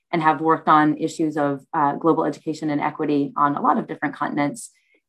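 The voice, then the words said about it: American accent. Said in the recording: “You can probably tell from my accent, I was born in the US, uh, but have lived in the UK since 2015”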